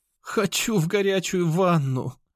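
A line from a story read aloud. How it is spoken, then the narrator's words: Young woman's moan. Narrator (Russian): простонала темноволосая девушка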